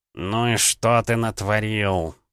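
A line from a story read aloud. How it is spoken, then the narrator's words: Hissed. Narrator (Russian): прошипел клин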